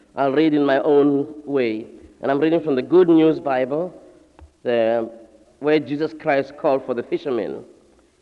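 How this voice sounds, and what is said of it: Speaks with a noticeable accent. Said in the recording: “So do forgive my accent.”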